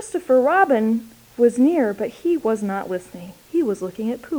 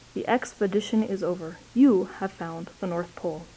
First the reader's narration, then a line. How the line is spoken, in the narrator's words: said Christopher Robin solemnly